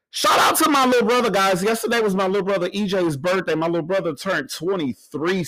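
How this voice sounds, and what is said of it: Hoarse, nearly lost voice. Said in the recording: “my voice sounds like this... I have no voice. My voice just gone. The voice just disappeared over here.”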